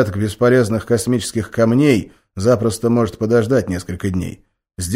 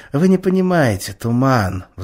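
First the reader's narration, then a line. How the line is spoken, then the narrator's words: Sighing. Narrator (Russian): вздохнул Раз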